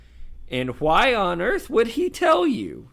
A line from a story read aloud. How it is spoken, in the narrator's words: screeched Muriel, swaying a little in her seat